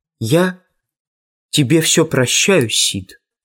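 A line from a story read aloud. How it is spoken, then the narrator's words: Sepulchral voice. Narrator (Russian): за могильным голосом проговорил Том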